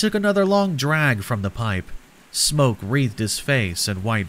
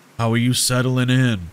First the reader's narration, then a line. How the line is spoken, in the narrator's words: he said in a thick drawl